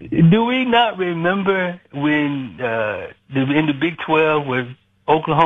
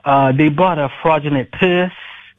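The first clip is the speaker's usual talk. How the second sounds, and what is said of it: Imitates a movie character's voice. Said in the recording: “my imitation of Chow from The Hangover”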